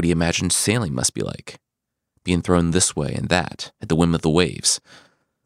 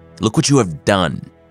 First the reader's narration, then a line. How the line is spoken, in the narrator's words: Kratos barked